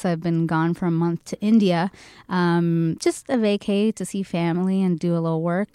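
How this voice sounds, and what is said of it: Low, hoarse, partly lost voice. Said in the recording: “my super, super sexy low voice right now. I actually lost my voice. ... I might be a little coughy today”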